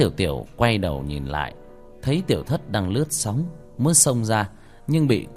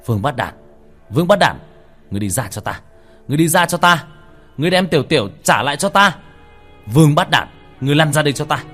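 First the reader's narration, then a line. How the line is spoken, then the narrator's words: Frenzied, ferocious screaming. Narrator (Vietnamese): Tiểu Thất lúc này có chút dữ tợn, điên cuồng bắt đầu hét lên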